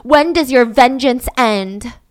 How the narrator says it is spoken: Pam's mom yelled

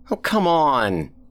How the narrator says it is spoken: he pleaded

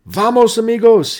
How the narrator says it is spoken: shouted

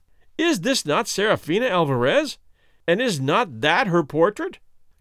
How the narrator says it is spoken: cried Don Fernando

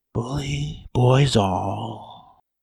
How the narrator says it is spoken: Cinnamon sings softly

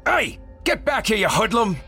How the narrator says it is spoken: the engineer barked

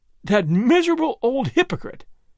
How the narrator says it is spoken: he cried, half angry and half laughing

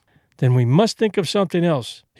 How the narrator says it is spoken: he went on cheerfully

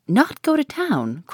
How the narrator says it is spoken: cried Mrs

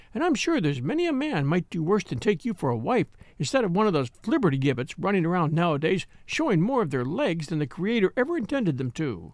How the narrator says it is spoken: said Miss Viner kindly

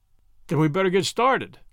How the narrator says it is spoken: Habert exclaimed

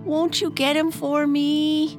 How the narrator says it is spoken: begged the little boy

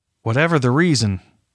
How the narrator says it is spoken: Chase finally said

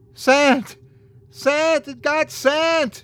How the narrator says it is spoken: I started screaming

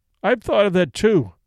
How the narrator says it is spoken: wailed Mrs

